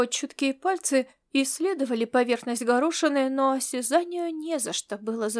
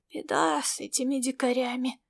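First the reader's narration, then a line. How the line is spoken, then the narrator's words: Heavy sigh. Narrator (Russian): Комиссар тяжело вздохнул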